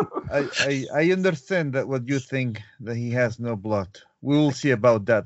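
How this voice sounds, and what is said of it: Spooky Dracula-like Russian accent. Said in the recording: “with your Russian accent, you sound very Dracula-like, and it's a little spooky”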